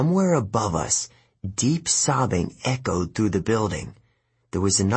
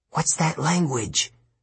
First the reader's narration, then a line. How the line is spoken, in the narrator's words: I whispered